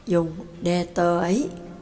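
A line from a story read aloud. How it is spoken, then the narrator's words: Soft. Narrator (Vietnamese): Lạc Ma Á La khẽ nói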